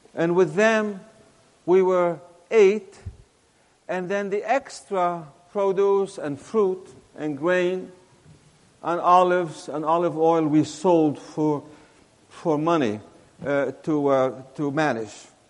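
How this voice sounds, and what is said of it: Mixed accent, neither southern nor northern. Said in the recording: “my accent, which is really not southern, not northerner, it's just a mixture of things”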